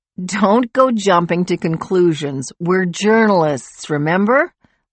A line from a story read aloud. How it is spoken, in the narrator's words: Lori laughed